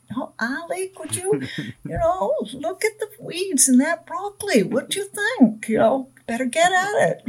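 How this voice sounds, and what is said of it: Imitated regional Maine grandmother accent. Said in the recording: “she had a regional accent.”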